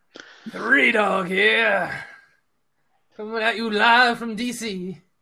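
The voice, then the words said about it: Imitates another person's voice. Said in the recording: “how did his voice go?”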